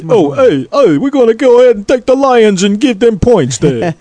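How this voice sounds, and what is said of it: Weak put-on Philadelphia accent. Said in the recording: “That's not a good Philly accent”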